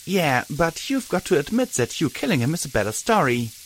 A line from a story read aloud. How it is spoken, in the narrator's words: Glory said brightly